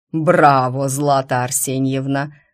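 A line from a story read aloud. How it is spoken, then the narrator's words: Loud bass declaration. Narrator (Russian): заявил он громким басом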